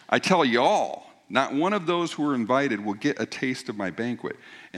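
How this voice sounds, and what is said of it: Put-on Southern accent. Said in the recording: “Southern accent. Y'all, right?”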